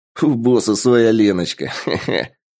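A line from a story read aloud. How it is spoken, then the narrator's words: Chuckle. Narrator (Russian): Хохотнул кто-то из отряда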